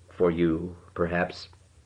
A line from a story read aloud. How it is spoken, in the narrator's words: She only smiled and said in her level, maternal voice